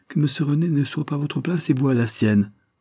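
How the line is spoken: Hesitant voice. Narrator (French): ajouta-t-elle d'une voix indécise

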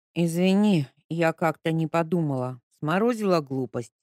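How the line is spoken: Tired grumble. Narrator (Russian): проворчала Ника, понимая, что выспаться ей никто не даст

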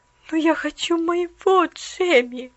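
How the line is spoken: Sad mumble. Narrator (Russian): грустно пробормотала она

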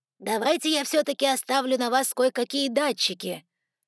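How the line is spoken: Loud, from behind partition. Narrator (Russian): громко произнес Эшли из-за перегородки

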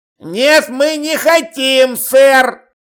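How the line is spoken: Roared. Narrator (Russian): Взревел Чудакули

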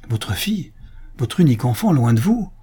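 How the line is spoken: Exclaimed. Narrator (French): s'écria Antonio

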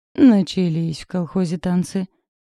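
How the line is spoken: Displeased grimacing tone. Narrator (Russian): поморщилась Валька

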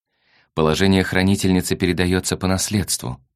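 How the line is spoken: Sad. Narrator (Russian): сообщил Кант, пожалуй, печально

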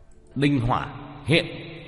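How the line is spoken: Shouted command. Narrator (Vietnamese): Tiểu Thất quát lên

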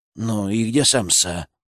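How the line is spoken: Quick grumble. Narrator (Russian): буркнул он почти моментально

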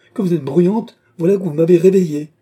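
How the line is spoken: Exclaiming queen. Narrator (French): s'écria la reine

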